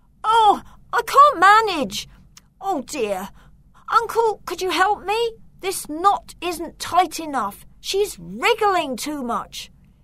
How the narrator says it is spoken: the boy turned round and shouted

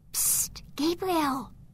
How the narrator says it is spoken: Candice whispered

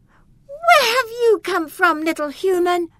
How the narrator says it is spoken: shouted Eleanor

